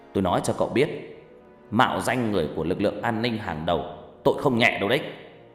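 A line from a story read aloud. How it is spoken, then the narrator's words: Loud shout. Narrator (Vietnamese): bác ta quát lớn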